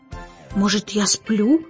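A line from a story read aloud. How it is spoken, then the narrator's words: Muttered. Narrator (Russian): пробормотал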